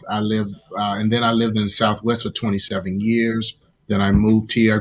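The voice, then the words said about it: Southern US accent. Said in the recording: “I grew up in the deep south. You all can hear that in my accent... I sound like a country bumpkin”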